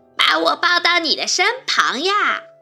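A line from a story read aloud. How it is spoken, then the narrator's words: Loud shout. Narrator (Chinese): 大声叫道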